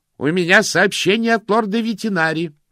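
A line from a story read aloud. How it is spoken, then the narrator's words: Shouted. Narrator (Russian): прокричал тот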